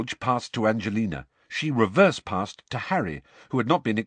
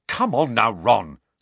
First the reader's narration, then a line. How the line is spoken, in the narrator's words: said Angelina crossly